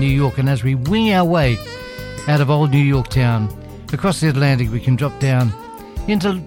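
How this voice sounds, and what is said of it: Usual voice. Nothing is said of it.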